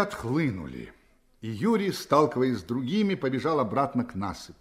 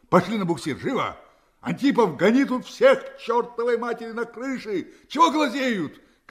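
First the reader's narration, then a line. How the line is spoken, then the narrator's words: Shout while running. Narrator (Russian): крикнул он на бегу усатому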